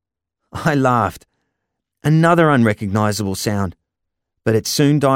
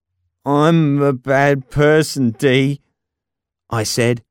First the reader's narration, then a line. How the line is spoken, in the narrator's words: my voice slurred beyond recognition